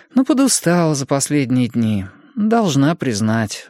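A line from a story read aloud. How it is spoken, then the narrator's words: Sighing. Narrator (Russian): вздохнула она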